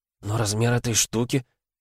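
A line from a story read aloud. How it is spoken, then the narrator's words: Stammering mutter. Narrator (Russian): пробормотала девушка, запинаясь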